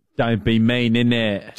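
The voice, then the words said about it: Put-on English accent. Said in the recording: “Do your English accent.”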